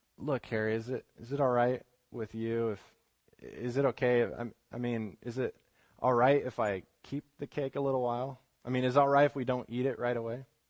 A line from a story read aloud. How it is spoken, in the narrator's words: slowly and softly said